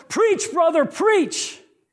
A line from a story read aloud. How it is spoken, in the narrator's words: One of the deacons yelled